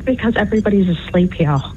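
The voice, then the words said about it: Whispering. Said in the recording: “are you whispering?”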